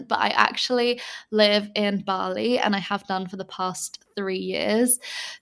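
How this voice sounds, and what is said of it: English accent. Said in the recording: “I'm originally from England, as you can probably tell by my accent”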